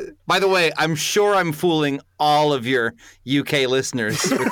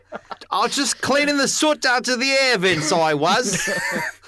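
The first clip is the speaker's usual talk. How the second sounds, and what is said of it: Exaggerated fake Cockney accent. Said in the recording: “a la Dick Van Dyke in Mary Poppins ... my perfect accent ... It's bang on Dick Van Dyke ... 100 Dick Van Dyke, nailed it”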